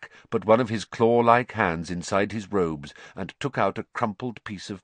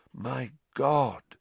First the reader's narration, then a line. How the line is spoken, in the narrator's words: said Lupin softly